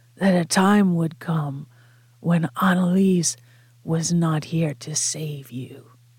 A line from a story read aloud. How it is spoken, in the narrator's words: Frank said, in a rasping tone, nothing like his usual smooth boredom